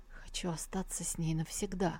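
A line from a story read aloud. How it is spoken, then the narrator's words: Weak, near-incoherent mumble. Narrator (Russian): слабо улыбнулся в ответ и пробормотал почти бессвязно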